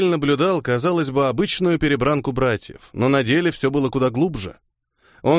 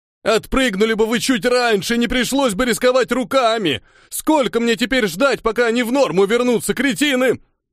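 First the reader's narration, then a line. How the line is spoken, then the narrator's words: Angry yelling. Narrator (Russian): орал рыжий на пристыженных братьев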